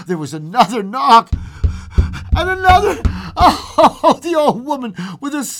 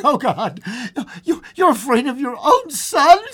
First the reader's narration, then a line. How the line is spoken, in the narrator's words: she cried, struggling